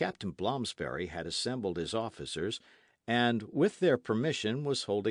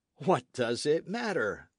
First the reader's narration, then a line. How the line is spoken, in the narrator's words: they exclaimed unanimously